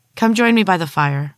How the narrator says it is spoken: said

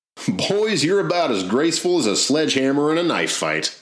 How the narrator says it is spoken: laughed Hanrahan

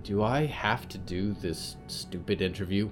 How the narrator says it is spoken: Riot sighed

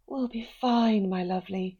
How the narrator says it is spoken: she mumbled

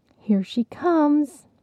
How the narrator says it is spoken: Gourmet Pretzels whispered

